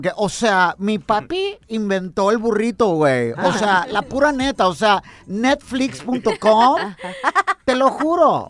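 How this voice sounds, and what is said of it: Posh Mexican rich-kid voice. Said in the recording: “He sounds like a niño fresa, así de los que hablan”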